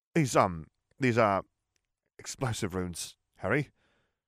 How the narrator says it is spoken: George said in a shaky voice

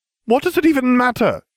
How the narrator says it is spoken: She cried

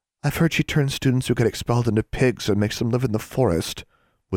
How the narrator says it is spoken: whispered Anna

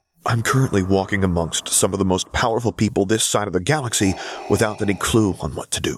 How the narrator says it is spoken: he muttered back, a slightly hysterical edge to his voice

